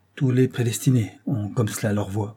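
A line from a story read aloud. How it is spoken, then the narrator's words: Murmured. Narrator (French): murmura l'avocat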